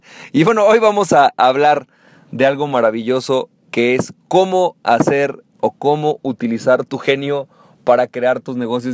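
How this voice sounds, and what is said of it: Hoarse, deep throaty voice. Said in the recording (Spanish): “voz de locutor ... no es tanto que tenga voz de locutor, es que hoy eh, amanecí un poco eh, molestón de la garganta”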